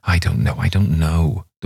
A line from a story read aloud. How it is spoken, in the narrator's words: the poor woman groaned